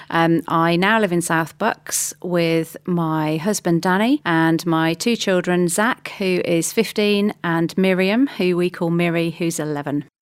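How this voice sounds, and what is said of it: English Midlands accent. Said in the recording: “I'm originally from the Midlands, which for anybody who's over this side of the pond may pick up from my accent relatively quickly.”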